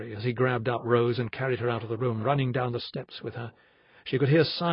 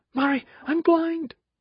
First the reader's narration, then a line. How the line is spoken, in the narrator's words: she sobbed